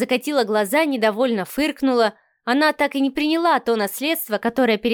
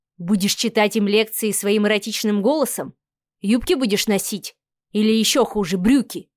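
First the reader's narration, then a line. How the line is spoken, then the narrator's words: Displeased muttering. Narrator (Russian): недовольно бормотал Савелий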